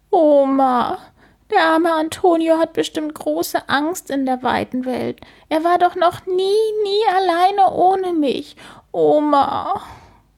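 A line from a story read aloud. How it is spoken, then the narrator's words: Sobbing. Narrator (German): schluchzt sie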